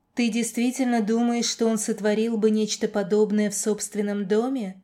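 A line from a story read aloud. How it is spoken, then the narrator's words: Plain question. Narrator (Russian): спросил медиатор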